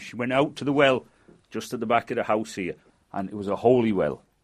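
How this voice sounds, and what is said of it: Manchester English accent. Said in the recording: “Is your accent a Lancashire accent? ... Not really, no. ... And where is your accent from? ... It's from Manchester, but because they travelled around so much.”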